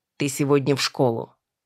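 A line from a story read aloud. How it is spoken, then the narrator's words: Grumbled mutter. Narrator (Russian): Буркнула Норма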